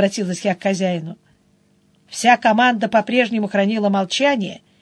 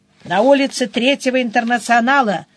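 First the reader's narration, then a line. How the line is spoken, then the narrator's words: Cheerful, brisk answer. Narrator (Russian): бодро ответил он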